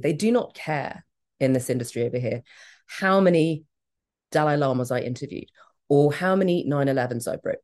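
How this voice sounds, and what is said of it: British accent. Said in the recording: “I do have a very British accent because I was at boarding school in England”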